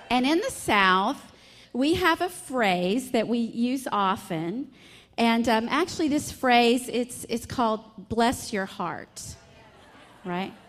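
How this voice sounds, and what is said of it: Strong Southern US accent. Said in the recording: “from my strong accent and my sweet smile, I'm a Southern belle”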